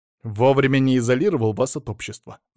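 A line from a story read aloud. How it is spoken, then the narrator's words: Angry. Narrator (Russian): зло сказал Алексей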